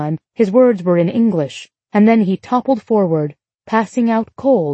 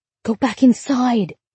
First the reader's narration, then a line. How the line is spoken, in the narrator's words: Ruby hissed